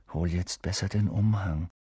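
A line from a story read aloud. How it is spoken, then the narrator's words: Murmuring. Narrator (German): murmelte Ron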